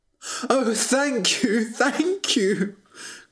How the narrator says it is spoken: cried the prince

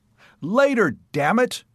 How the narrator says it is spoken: I had to shout to make myself heard over the roaring water

